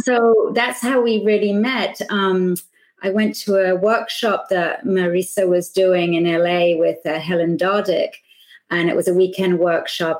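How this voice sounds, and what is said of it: British accent. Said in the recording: “you get another Brit accent here”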